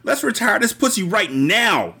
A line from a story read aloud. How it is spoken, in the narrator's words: Busy said furiously